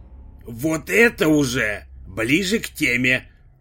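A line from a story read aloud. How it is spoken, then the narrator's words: Agreeing grunt, driver. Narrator (Russian): согласно хмыкнул водитель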